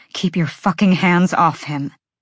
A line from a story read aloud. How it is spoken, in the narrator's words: Bryce hissed